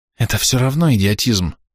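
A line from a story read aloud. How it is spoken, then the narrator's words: Quietly seething. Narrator (Russian): тихо кипела Рис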